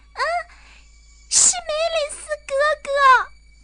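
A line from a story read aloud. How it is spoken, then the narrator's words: Shout. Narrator (Chinese): 苏勒喊了一声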